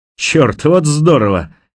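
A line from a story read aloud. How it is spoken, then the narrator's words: Loud laughter. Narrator (Russian): Харпер громко расхохотался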